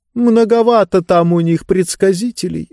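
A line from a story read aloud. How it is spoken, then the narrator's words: Sighing. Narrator (Russian): вздохнула книга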